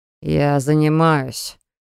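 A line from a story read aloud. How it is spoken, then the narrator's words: Sullen grumble. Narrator (Russian): буркнул брат, насупив густые брови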